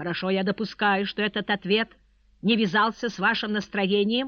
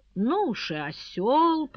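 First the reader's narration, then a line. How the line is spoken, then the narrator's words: Muttering. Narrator (Russian): пробормотал Христиан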